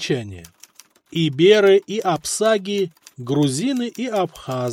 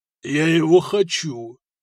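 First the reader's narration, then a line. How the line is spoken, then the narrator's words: Almost moaning. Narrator (Russian): Почти простонал Сигурд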